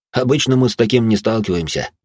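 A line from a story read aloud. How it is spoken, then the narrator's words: Detective's snort. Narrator (Russian): хмыкнул сыщик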